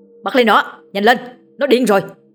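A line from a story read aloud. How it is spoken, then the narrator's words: Urgent yell. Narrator (Vietnamese): thằng Hưng đã gào lên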